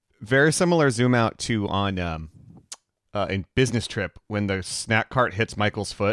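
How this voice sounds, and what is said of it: Usual voice. Nothing is said of it.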